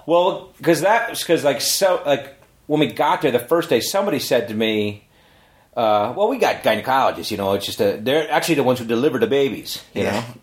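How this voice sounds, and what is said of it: Canadian accent. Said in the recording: “I like your Canadian accent.”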